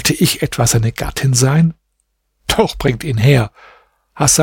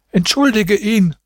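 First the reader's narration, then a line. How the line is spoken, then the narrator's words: Old woman calling. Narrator (German): rief die Alte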